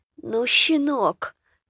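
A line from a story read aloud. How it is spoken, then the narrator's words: Quiet, angry. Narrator (Russian): разозлился староста тихо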